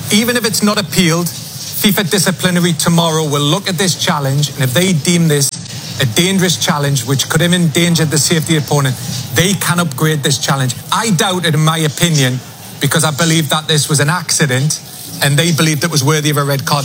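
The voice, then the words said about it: Irish or Scottish accent. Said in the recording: “that beautiful accent ... Gotta love the British accent. ... That was like an Irish or Scottish, wasn't it?”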